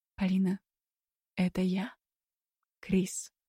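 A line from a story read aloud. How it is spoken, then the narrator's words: Quiet. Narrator (Russian): тихо произнес он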